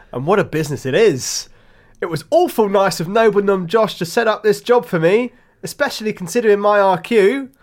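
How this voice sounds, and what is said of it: Put-on accent. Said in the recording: “I've gone for an accent now. I think it's going to further suit the role.”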